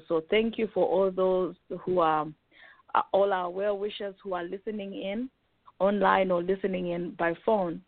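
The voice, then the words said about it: Rough, unwell-sounding voice. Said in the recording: “you have to excuse my voice. I'm also trying to recover from this cold or cough.”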